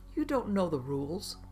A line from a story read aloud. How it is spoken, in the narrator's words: Jay scoffed and asked